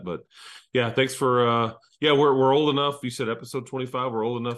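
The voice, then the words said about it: Rough, strained sick-sounding voice. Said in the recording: “sorry for my voice. It's kind of jacked up. Been battling the crud”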